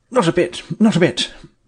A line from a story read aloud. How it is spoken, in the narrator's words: he answered hastily